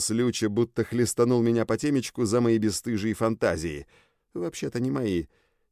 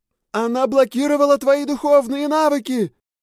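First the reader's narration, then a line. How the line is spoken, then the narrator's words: Continued yelling. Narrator (Russian): продолжала вопить Люча с берега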